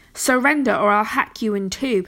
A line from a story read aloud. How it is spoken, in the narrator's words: Pellinore growled